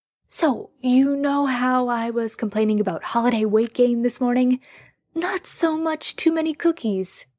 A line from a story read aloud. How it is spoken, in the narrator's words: Jared had gasped